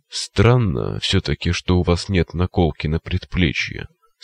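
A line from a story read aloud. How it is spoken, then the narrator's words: Plain. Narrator (Russian): сказал он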